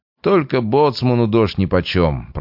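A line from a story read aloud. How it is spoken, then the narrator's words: Muffled grumbling. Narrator (Russian): проворчал Трофимов из-под капюшона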